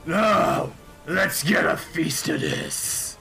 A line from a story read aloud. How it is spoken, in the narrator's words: the green dragon, Milrair the Hungry, and he kind of like snarls out and says